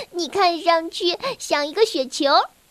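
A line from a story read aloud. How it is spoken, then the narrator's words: Giggling. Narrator (Chinese): 小弟嘻嘻笑着说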